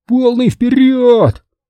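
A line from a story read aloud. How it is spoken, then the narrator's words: Yelling. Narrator (Russian): заорал Хэнк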